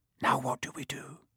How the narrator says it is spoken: Harry whispered

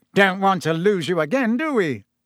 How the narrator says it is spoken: said Fudge, with a hearty laugh

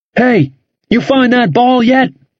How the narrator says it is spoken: he yelled

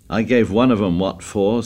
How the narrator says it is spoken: said Ralph

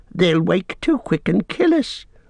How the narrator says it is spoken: whined Smeagol in the last effort

